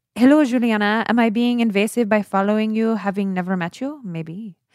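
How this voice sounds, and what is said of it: Put-on vaguely French accent. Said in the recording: “sexy Brazilian accent... I don't know how to do Brazilian, so I'm going to do random... I sound like the candelabra in Beauty and the Beast... a little French”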